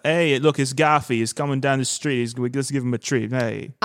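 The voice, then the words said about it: Boston accent sounding like New York. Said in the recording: “if they were saying with the Boston accent ... that's the most New York I've ever sounded”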